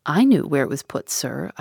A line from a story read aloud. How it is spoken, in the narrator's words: I said